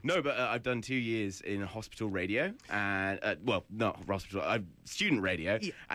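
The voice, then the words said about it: English accent. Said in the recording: “I've done 2 years of radio in England, if the accent didn't get”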